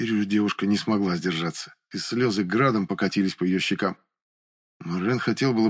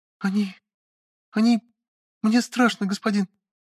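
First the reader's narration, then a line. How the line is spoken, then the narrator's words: Frightened squeak. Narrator (Russian): пискнула визитерша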